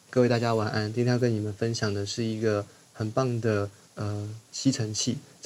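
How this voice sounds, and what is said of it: Very quiet, low-volume speaking. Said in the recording (Chinese): “就像我的声音一样很小声。你看，这样就不对了。”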